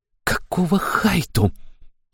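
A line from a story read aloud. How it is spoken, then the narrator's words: Hiss. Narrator (Russian): прошипела Аштира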